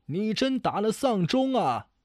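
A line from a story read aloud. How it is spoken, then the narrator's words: Distant cursing. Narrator (Chinese): 远远的传来叫骂声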